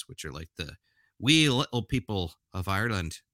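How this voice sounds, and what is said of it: Bad put-on Irish accent. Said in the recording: “That's a terrible accent.”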